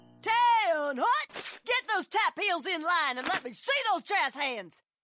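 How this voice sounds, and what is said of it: Barking drill instructor voice. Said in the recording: “my impression of a drill instructor directing a musical”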